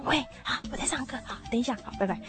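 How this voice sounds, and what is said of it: Quiet, hushed phone voice. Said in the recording (Chinese): “小声”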